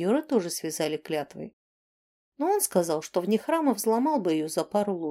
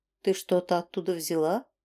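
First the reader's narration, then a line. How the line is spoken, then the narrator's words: Soft question. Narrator (Russian): мягко спросил Рьен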